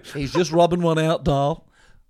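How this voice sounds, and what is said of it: Imitates another person's voice. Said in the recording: “that's a good impersonation of my dad. Portuguese professor.”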